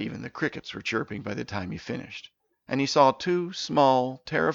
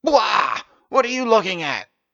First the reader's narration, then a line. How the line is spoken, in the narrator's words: shouted